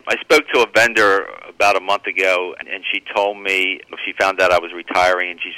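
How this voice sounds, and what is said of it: Choked-up, emotional voice. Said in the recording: “I'm getting a little choked up here”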